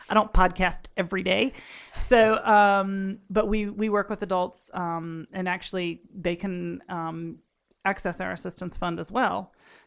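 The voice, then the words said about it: Noticeable accent. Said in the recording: “I am a little nervous today, so my accent's kind of showing up a lot.”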